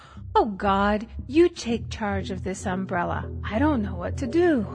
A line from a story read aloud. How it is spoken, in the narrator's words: in desperation, she exclaimed